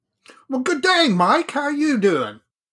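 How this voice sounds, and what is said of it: Bad put-on Australian accent. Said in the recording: “I won't do an Australian accent through the whole show. That was it. And that was pretty bad. ... I think that was pretty bad”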